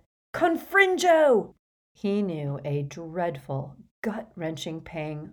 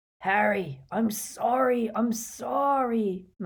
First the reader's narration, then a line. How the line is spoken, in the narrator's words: moaned Hagrid